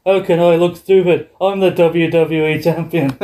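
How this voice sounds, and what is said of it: Poor put-on Irish accent. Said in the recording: “my horrible Irish accent”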